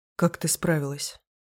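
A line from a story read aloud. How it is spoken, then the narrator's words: Quiet question, man. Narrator (Russian): тихо спрашивает мужчина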